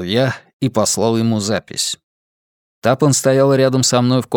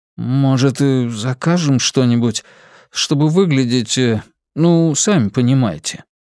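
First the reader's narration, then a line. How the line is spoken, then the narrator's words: Uncertain. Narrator (Russian): Человек неуверенно произнес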